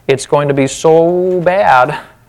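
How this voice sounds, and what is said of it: Northern accent. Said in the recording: “there's my northern accent coming out.”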